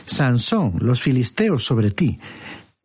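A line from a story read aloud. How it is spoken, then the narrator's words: Exclamation. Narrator (Spanish): Dalila exclamó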